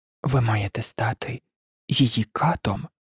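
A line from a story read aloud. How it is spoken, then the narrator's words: Sinisterly gentle question. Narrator (Ukrainian): спитав зловісно лагідним голосом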